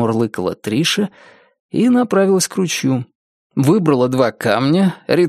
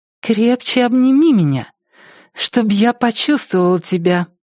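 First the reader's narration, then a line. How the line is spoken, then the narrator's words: Singsong, then laughing. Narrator (Russian): пропела Триша и рассмеялась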